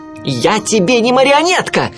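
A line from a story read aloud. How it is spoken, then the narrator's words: Shouting. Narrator (Russian): крикнул он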